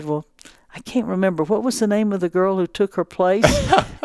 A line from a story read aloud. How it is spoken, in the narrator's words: Holly, very calmly with a smile, said